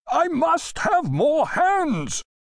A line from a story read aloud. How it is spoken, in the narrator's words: the sailing-master shouted almost into Griffith's ear